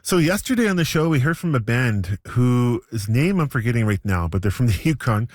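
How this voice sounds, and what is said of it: Slightly strained, fading voice. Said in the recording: “I'm losing my voice a little bit”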